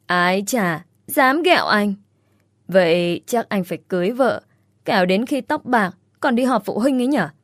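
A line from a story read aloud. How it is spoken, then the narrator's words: Laughing loudly. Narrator (Vietnamese): Tuấn cười lớn rồi nói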